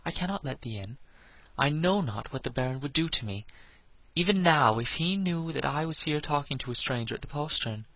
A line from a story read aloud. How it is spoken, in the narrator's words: said the lass in a frightened voice